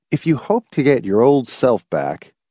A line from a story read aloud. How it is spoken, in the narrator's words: he told her firmly